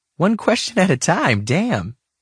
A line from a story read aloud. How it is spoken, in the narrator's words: she said, laughing